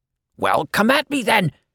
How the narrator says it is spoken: shrieked, voice that sounded barely human

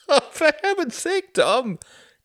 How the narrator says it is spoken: Klaus laughed

